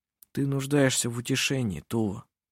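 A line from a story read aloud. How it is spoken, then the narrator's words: Calm and friendly. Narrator (Russian): спокойно и дружелюбно сказал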